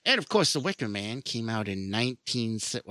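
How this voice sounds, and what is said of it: Boston accent. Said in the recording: “I went total, to, total Boston accent there”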